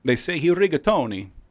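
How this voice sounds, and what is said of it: Put-on Italian accent. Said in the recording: “I like that Italian accent. That was good.”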